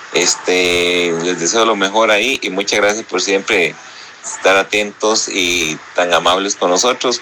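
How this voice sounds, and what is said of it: Costa Rican Spanish accent. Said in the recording (Spanish): “ese acento? Tico, ese acento tico”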